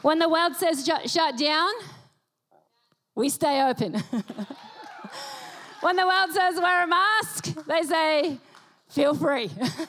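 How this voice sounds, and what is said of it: Australian accent. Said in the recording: “This accent that you hear is Australian.”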